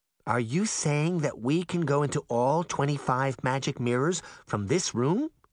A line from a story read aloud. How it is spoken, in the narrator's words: Goldilocks asked